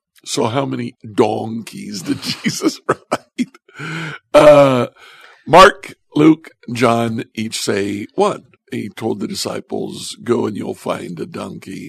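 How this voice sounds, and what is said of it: Northwest Ohio accent. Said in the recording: “my Northwest Ohio accent coming through”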